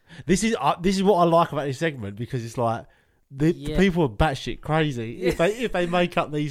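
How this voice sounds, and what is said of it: Welsh accent. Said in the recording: “your Welsh accent”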